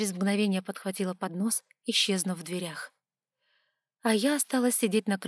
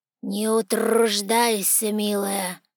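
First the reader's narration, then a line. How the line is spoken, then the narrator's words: Hoarse voice. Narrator (Russian): раздался хриплый голос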